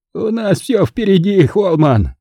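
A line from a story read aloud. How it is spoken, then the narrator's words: Hunted squeak. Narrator (Russian): пискнул затравленно Хойт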